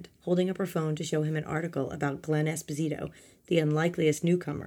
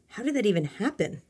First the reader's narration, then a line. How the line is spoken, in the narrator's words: Maryanne asked excitedly